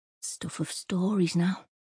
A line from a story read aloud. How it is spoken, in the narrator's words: murmur